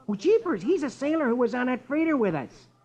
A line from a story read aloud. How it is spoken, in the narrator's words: Rusty exclaims